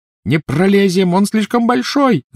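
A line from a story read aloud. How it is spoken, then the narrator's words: Shouting. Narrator (Russian): закричала Гермиона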